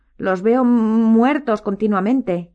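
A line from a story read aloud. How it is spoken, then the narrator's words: Moaning. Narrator (Spanish): gimió la señora Weasley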